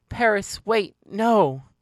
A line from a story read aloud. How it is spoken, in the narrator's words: I pleaded